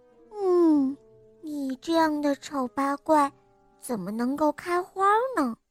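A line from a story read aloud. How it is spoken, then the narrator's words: Muttering. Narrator (Chinese): 兰花嘟囔着说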